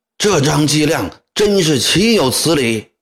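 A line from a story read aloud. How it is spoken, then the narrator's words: Loud booming roar. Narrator (Chinese): 左宗棠平时本声音洪亮，这一声吼声震屋瓦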